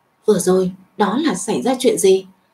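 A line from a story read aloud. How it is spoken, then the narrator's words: Quiet question. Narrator (Vietnamese): Tào đại sư nhỏ giọng hỏi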